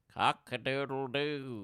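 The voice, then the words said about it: Rooster crowing impression. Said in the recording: “My rooster impression goes like this ... That's a good cock impression.”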